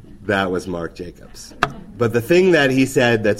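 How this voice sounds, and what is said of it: Usual voice. Nothing is said of it.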